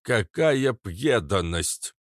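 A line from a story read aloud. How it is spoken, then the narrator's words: Lisping. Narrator (Russian): прошепелявил папаша Кац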